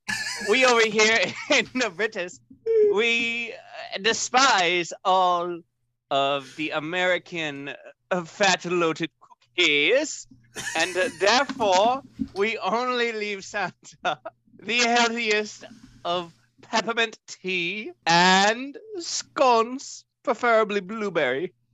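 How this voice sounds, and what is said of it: Wavering put-on British accent. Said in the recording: “You went between like 3 different accents in that sentence alone ... British ... or whatever that was”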